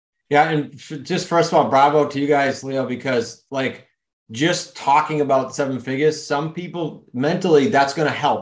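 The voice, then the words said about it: New England accent. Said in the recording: “my accent in New England”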